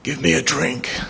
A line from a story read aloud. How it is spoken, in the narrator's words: in his voice dry and husky